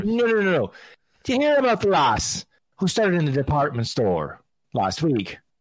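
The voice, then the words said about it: Exaggerated put-on Irish accent. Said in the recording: “the rotten Irish accent, which I absolutely love throwing out there”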